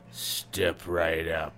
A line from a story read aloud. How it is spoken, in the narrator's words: calls in a gravelly voice